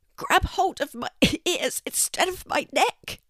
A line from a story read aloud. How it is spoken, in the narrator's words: Gerry spluttered